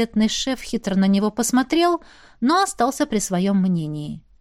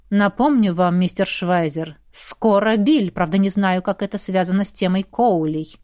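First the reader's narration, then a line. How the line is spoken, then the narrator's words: Grumbling. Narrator (Russian): проворчал Равьен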